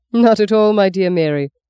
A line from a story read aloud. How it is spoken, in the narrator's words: laughed